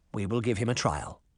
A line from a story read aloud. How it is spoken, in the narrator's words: Mustard Seed said quietly